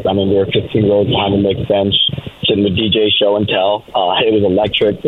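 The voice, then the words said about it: Hoarse, partly lost voice. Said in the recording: “Lost my voice a bit”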